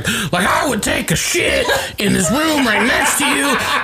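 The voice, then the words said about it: Good impression of a drunk person. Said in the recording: “That's a really good impression of drunk Bridget.”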